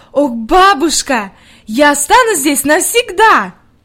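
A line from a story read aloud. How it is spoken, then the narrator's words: Delighted exclamation. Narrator (Russian): с восторгом воскликнула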